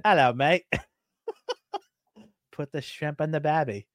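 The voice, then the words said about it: Put-on accent, poor attempt. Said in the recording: “were you trying to do accents? ... Listening to you try to do the accent.”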